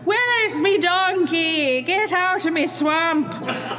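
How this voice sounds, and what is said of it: Ogre voice in botched Irish accent. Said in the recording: “this one's Irish because he didn't master the accent”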